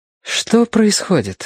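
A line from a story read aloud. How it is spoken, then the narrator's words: Sleepy question. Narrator (Russian): спросила она, сонно моргая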